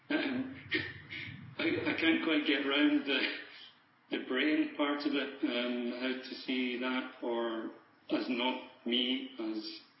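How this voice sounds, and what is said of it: Scottish accent. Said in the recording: “I heard a Scottish accent. ... I'm Scottish, living in Switzerland.”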